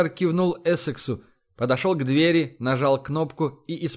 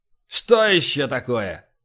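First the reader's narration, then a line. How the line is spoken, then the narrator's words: Commanding roar over noise. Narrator (Russian): рявкнул адмирал, перекрывая командным ревом вопли в коридоре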